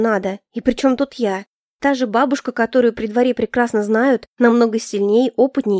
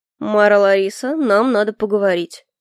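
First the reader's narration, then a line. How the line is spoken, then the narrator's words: Solemn declaration. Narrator (Russian): торжественно заявил Альфред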